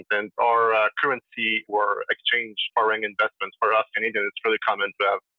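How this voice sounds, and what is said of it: Quebec French accent in English. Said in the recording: “I'm sure you can hear from my accent, but I'm from Quebec, Montreal, so I speak French”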